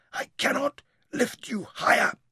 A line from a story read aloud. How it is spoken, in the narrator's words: he breathed, with their lips almost touching